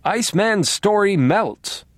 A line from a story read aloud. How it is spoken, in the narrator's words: now screamed